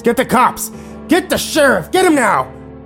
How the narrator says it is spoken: He began screaming at the top of his lungs

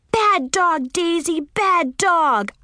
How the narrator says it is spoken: I yelled

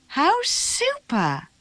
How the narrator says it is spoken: Matilda cried

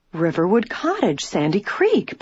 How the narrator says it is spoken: Bess exclaimed

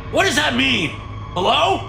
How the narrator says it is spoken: Marshall shouts at the TV

